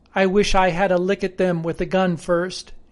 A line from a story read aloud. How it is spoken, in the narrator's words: replied